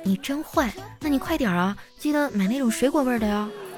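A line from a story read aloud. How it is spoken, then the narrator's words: Shy quiet voice. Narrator (Chinese): 这女神突然脸就红了，小声说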